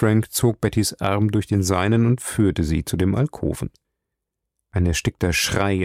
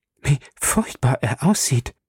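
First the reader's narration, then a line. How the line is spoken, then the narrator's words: Gasp. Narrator (German): japste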